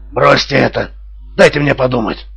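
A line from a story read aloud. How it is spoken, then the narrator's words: Sharp cold tone. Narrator (Russian): проговорил он резким и холодным тоном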